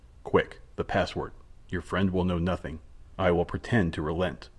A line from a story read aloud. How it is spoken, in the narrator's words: said in a low voice